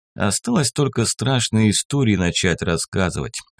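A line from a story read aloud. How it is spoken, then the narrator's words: Wry snort. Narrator (Russian): хмыкнул я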